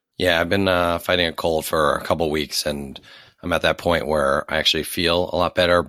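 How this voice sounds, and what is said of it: Hoarse, cracking sick voice. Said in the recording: “you sound a little sick ... my voice is cracking, and yeah, it sounds like there's like a frog in my throat ... the lack of your voice ... like he's done 37 packs of cigarettes in the last 32 minutes”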